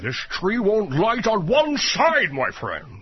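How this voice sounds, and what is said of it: Eerie Rush Limbaugh impression. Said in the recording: “was doing his impression of Rush Limbaugh ... your impressions really are eerie”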